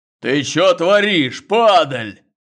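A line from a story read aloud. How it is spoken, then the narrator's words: Fierce bass roar. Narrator (Russian): взревел свирепый бас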